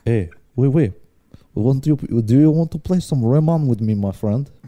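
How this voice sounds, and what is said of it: Unconvincing put-on French accent. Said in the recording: “This doesn't sound French. ... That was not French.”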